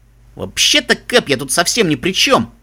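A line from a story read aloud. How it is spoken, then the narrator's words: Offended, distant from below. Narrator (Russian): Обиженно донеслось из трюма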